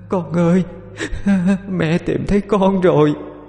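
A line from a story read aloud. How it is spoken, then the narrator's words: Ghostly wailing sobs. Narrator (Vietnamese): Hồn ma khóc lóc kêu gào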